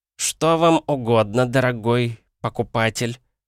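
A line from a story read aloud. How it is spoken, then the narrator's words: Disdainful, through teeth. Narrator (Russian): брезгливо процедил этот парень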